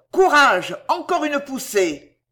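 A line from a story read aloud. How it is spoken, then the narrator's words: Shout. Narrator (French): cria-t-on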